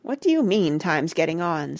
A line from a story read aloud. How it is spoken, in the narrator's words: said Parrot irritably